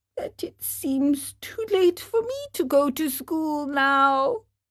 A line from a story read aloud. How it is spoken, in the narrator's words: whined the marionette in a whisper